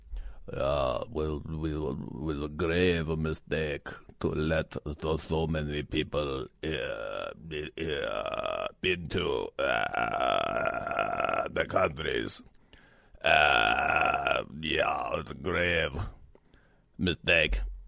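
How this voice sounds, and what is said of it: Henry Kissinger impression. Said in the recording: “my Kissinger imitation, I think it's better.”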